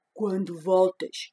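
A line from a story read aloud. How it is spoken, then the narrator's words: Grumpy bear asking. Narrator (Portuguese): perguntou o urso resmungão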